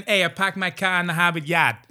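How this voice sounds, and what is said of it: Put-on Boston accent. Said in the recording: “Or like Boston.”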